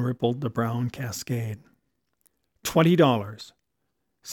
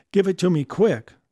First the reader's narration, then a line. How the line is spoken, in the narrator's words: said Della